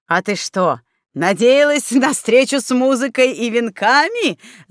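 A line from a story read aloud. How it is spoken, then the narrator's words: Loud mocking laughter. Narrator (Russian): захохотал Снеговей, заметив вытянувшееся от разочарования Светки на лицо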